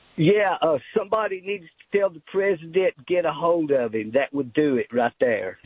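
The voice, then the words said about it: Tennessee Southern accent. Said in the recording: “I do love that Tennessee accent. You can't pretend to be from Tennessee. You either sound like that or you're not from Tennessee.”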